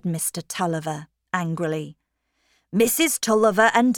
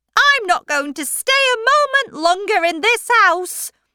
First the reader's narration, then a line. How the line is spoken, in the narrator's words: cried Aunt Glegg